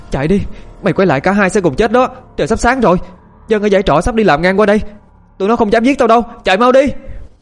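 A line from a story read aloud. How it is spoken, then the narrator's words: Panicked scream. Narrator (Vietnamese): Thư quản hốt hét lên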